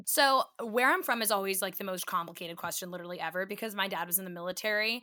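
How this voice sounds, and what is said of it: Philadelphia accent. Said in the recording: “I always usually tell people I'm from Philly, and you can usually hear it, my accent”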